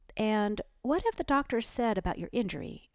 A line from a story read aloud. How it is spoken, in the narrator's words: asked Ellie, kindly